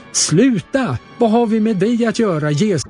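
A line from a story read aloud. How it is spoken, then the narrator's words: Possessed man screaming loudly. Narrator (Swedish): en man med en oren ande, och han skrek högt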